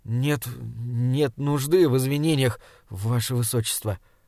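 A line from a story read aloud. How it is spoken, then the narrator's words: Stammering. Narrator (Russian): запинаясь, сказал Саймон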